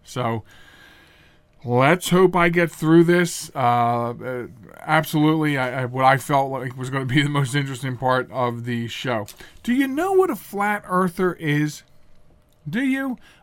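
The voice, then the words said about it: Strained, failing voice. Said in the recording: “the allergies are really kicking my ass tonight. ... my voice is right now opening the door of the studio and trying to leave without me.”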